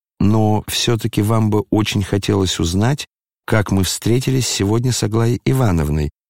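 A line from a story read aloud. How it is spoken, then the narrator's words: Very calm. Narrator (Russian): весьма спокойно докончил князь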